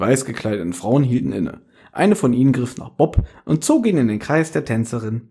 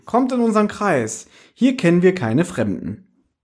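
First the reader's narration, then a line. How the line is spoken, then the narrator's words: Call. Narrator (German): rief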